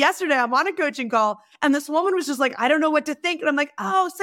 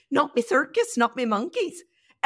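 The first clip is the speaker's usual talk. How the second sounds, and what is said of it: Put-on Northern Irish accent. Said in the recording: “you have to say it with that accent because that's how it was given to me. So I was doing a roundtable of CEOs in Ireland. So we were in Northern Ireland”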